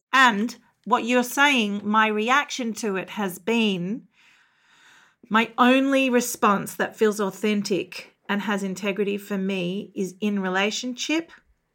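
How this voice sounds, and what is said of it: Australian accent. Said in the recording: “your lovely Australian accent”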